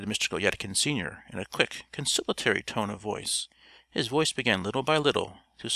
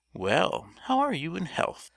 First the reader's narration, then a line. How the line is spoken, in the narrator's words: said the sinner in a sweet voice